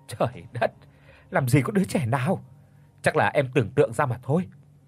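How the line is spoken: Laughing, then speaking. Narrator (Vietnamese): Anh bật cười rồi nói

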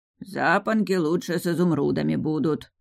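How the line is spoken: Old man's mutter. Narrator (Russian): пробормотал дед Смир

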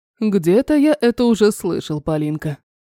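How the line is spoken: Chuckling. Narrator (Russian): хохотнул Терри

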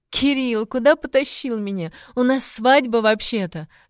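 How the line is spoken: Muffled laughter. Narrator (Russian): смеялась Лиска мне в шею

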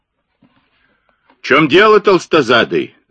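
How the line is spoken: Yelling. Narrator (Russian): заорал Блек

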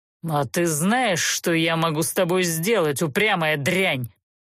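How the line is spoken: Menacing growl. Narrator (Russian): угрожающе рыкнул стражник

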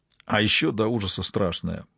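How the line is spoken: Muttering. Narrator (Russian): пробормотал Фрост

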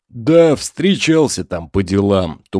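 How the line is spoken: Vague deep bass. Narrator (Russian): туманно пробасил Влад

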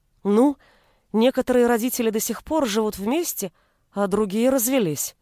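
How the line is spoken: Unsure mumble. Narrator (Russian): неуверенно пробормотала я

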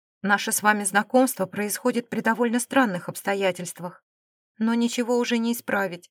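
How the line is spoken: Calm woman's voice. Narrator (Russian): спокойно начала женщина

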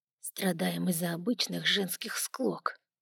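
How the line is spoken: Barely audible grumble. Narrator (Russian): едва слышно проворчал Фелину себе под нос

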